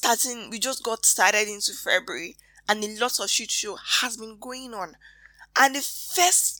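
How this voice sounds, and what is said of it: Usual voice. Nothing is said of it.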